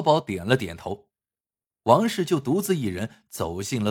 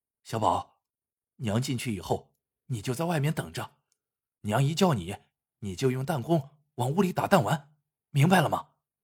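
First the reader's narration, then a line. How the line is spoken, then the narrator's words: Quiet instruction. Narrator (Chinese): 他小声嘱咐小宝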